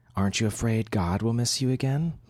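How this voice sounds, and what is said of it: Teasing voice. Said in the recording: “In a teasing voice”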